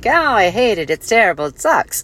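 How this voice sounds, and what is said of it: Put-on accent. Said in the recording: “there I go again with an accent”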